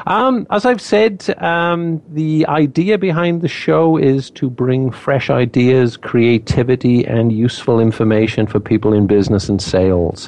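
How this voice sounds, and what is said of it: Speaks with a noticeable accent. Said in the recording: “I do have an accent”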